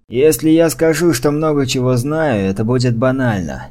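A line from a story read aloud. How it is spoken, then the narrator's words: Grumbling. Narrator (Russian): проворчал вице-канцлер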